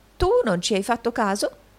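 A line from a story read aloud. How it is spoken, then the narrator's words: Exclaiming. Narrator (Italian): esclamò il riscossore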